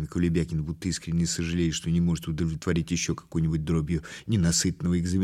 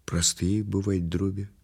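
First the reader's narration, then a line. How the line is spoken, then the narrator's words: Disheartened sigh. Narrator (Russian): вздохнул обескураженный Кулебякин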